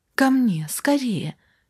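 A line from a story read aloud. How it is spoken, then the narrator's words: Exclaiming. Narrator (Russian): воскликнула Наташа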